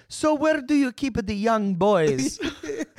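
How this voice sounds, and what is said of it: Comic impression of a Roman. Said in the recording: “This is my impression of a Roman in anywhere right now.”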